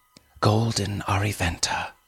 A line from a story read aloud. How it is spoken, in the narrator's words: she whispered